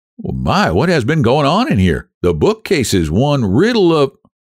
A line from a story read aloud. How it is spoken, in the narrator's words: one of my boys exclaimed